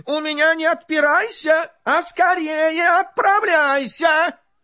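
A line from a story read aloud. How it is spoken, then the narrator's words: Angry shout. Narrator (Russian): Царь со гневом закричал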